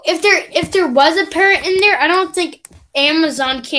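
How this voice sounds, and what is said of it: Usual voice. Nothing is said of it.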